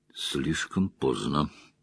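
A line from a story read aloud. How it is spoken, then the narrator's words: Muttered. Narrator (Russian): пробормотал Ранд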